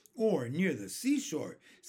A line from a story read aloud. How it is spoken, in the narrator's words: said James eagerly